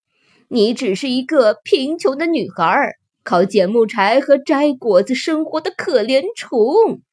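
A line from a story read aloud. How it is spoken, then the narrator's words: Mocking. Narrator (Chinese): 村民们嘲笑她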